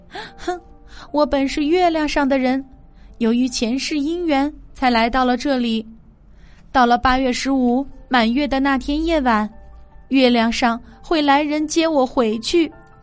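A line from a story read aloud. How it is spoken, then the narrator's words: Crying aloud. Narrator (Chinese): 她哭出了声，说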